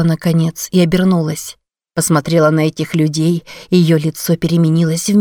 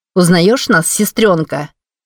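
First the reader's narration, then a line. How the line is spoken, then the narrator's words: Woman's mocking question. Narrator (Russian): насмешливо спросила женщина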